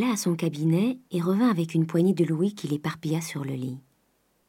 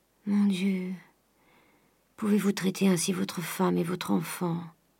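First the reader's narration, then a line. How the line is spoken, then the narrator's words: Weak voice. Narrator (French): dit d'une voix faible Madame Grandet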